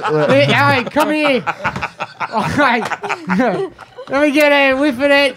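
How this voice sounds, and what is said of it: Put-on Australian accent. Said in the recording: “I do the accent. ... who brings the Australian.”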